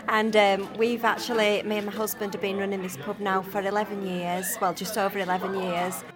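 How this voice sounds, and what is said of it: Northern English accent. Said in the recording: “the north of England, which you can tell by our northern accents”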